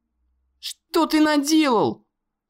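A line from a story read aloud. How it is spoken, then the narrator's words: Shouting into emptiness. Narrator (Russian): закричал Конор в пустоту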